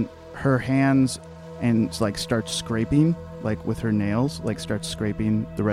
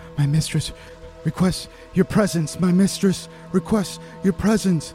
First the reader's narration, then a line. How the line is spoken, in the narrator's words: she's just screaming